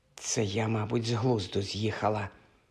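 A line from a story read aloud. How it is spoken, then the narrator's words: Whisper. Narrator (Ukrainian): шепнула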